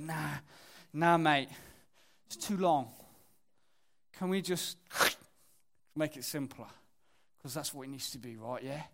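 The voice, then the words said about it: Imitated London accent. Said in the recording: “Just so rude to that accent. Tim's from London”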